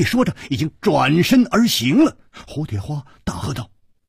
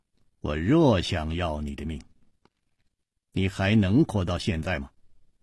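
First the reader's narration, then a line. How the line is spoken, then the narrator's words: Cold. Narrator (Chinese): 黑人冷冷地说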